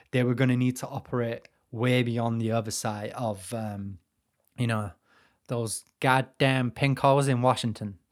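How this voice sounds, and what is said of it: Put-on American accent. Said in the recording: “that's my American accent anyway.”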